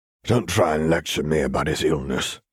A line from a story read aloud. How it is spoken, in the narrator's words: he growled